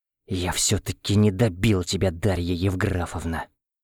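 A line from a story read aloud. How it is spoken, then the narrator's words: Whispered. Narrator (Russian): Прошептал я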